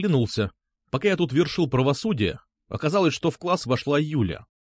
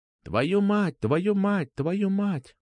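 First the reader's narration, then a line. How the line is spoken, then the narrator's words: Echoing whisper. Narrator (Russian): Как эхо прошептал Глич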